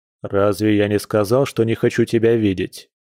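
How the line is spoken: Stern voice. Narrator (Russian): строго произнес Дима

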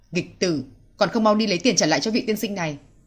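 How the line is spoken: Angry bark. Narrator (Vietnamese): Ông quát lên

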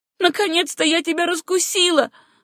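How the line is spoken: Shouting. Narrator (Russian): закричала Сюзанна

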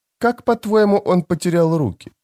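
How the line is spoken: Innocent-toned question. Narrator (Russian): спросила Фелисин невинным тоном

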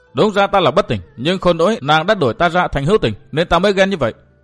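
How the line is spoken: Irritable. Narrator (Vietnamese): Lâm Tử gắt gỏng nói

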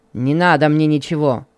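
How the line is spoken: Angry refusal. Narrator (Russian): сердито отказался Михаил

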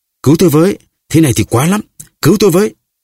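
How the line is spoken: Loud cry. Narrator (Vietnamese): Milady lại lớn tiếng kêu

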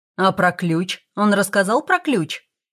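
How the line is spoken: Indignant question. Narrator (Russian): возмущенно спрашивал Сальтеро

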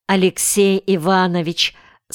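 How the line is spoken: Plain. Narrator (Russian): сказал Костя Сигалаев

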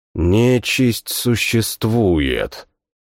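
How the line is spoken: Muttering. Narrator (Russian): пробормотал я

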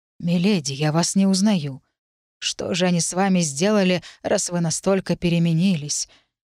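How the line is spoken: Sympathetic tearful breath. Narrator (Russian): Сочувствующе выдохнул он, в его прозрачных глазах показались слезы

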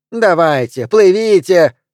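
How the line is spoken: Woman shouting. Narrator (Russian): кричала женщина

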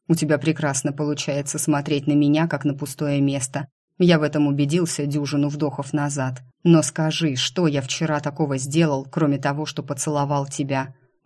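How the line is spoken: Growling. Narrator (Russian): Он уже не говорил, рычал

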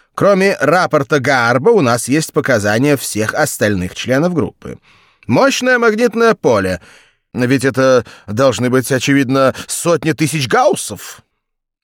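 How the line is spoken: Loud speech. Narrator (Russian): громко заговорил Сакс

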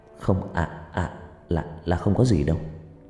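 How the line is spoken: Stammering. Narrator (Vietnamese): Cậu lắp bắp

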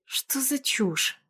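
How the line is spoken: Muttered. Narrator (Russian): Бормочу я

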